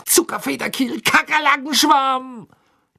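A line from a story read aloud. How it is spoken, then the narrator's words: Angry shout. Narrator (German): schrie er zornig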